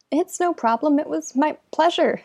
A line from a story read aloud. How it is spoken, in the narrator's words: stammers the human, her brown cheeks pinking